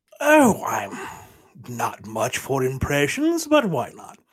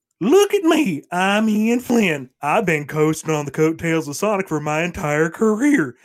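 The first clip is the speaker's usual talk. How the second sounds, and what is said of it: Imitates another person's voice. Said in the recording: “your best Ian Flynn impression”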